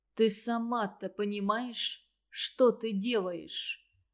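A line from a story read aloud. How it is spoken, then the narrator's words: Quiet question. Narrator (Russian): тихо спросил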